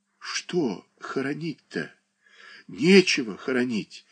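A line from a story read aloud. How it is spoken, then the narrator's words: Moaning. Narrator (Russian): простонала Марья Дмитриевна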